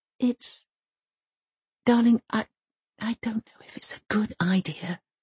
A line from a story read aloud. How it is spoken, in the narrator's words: whispers Mum